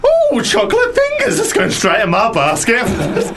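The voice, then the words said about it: Theatrical pantomime dame voice. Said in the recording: “You sound like a dame.”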